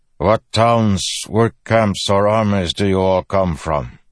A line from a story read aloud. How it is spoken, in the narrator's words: His voice had a strange cadence, similar to the Parshendi Kaladin had heard on the Shattered Plains